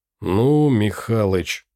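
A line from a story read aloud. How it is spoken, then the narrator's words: Drawn out. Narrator (Russian): протянул Андрей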